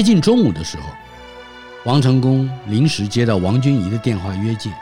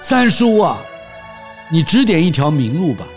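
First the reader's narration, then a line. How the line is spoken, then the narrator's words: Loud sobbing. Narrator (Chinese): 自己也大声地哭起来，叫着王迎先说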